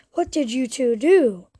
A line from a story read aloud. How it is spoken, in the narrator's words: exclaimed Ella